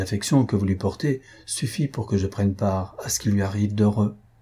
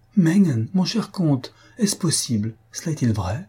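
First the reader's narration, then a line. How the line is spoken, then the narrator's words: Crying out. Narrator (French): s'écria la comtesse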